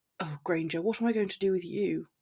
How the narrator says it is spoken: smiled down at her fondly, whispering

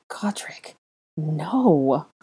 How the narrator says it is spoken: Hermione breathed again

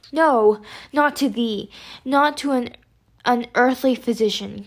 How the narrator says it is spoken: cried Mr

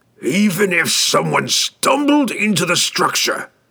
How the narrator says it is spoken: he growled, impatient with the relentless stream of impossible suppositions

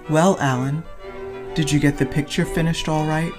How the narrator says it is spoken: he said

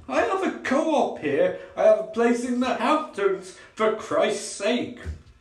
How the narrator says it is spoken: Tim blurts out

